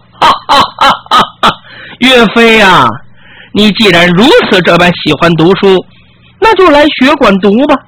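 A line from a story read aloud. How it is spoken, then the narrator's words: Hearty laughter. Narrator (Chinese): 周同 哈哈大笑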